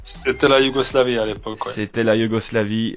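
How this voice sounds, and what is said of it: Serbian accent speaking French. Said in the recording (French): “cet accent qui nous a enchanté pendant 5 ans”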